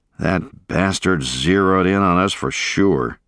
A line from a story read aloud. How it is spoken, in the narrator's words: groaned